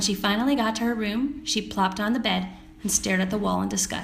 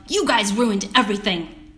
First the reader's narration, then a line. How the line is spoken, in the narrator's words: she yelled